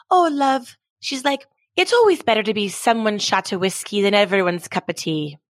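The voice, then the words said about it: Attempted Irish accent. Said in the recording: “in her Irish accent, which I kind of suck at doing, but I'm going to try”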